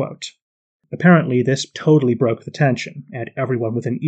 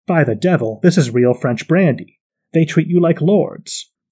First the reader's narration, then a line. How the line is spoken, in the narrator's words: exclaimed